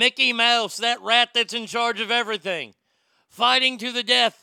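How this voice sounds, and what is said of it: Usual voice. Nothing is said of it.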